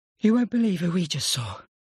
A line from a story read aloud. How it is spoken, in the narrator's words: he said, panting